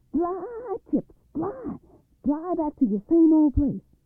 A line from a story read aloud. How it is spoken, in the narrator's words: he hollered